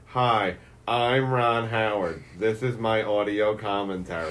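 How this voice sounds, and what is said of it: Imitates another person's voice. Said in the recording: “I do this stupid impression of Ron Howard ... This is spot on ... It sounded like already imitating him”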